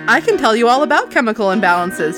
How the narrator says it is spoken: Jessica said cheerfully

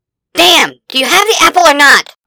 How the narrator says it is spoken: Argo snapped

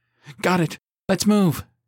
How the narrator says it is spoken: she cried

